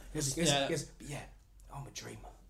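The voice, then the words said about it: Put-on Cockney accent. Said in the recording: “Cockney done right is amazing.”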